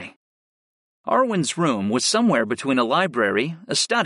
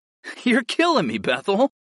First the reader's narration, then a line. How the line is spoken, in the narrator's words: I laughed